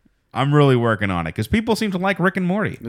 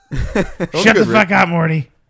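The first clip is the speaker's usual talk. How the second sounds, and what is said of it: Imitates cartoon character Rick's voice. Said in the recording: “I'm working on my Rick and Morty”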